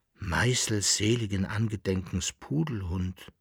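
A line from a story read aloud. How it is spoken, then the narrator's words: Dismayed murmur. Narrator (German): murmelte der Berl-Landfahrer betroffen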